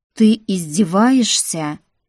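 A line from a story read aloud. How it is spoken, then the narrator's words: Growled. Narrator (Russian): прорычал Тим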